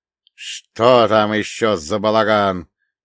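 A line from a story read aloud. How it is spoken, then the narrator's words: Growled. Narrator (Russian): прорычал дядя Олег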